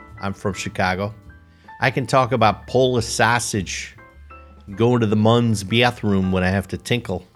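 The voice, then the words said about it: Put-on Chicago accent. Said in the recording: “That's a pretty good Chicago, you know, accent right there.”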